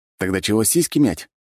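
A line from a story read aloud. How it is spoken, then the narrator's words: Smirking snort. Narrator (Russian): хмыкнул я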